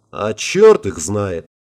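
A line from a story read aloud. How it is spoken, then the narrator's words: Pessimistic snort. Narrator (Russian): пессимистично хмыкнул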